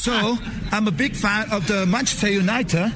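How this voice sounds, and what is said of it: Attempted British English accent. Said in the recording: “your English is this accent, the British English... Try and copy it.”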